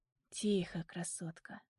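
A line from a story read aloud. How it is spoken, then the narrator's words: Tender whisper. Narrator (Russian): ласково шепчет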